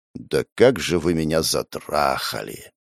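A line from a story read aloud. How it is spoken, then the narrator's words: Long exasperated exhale. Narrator (Russian): Я протяжно выдохнул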